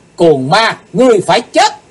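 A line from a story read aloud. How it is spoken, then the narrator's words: Shouting. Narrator (Vietnamese): Cùng trong tiếng hét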